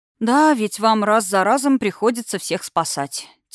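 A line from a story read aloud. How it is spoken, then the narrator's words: Heavy sigh. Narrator (Russian): тяжело вздохнула я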